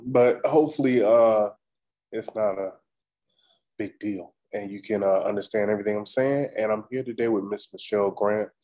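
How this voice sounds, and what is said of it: Slightly raspy, sick-sounding voice. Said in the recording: “in case you can't tell by my voice, I'm a little raspy. I got that bug.”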